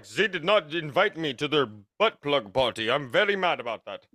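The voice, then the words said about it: Poor attempt at German accent. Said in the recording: “That's not a German accent at all.”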